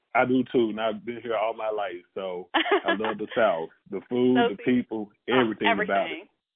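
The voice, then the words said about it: Southern US accent. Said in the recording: “when I hear your accent, you remind me so much of home because, you know, my family is from Mississippi and Louisiana”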